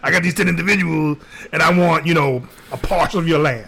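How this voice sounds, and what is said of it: Puts on a character voice. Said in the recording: “that voice you're making now? I picture Biden saying that.”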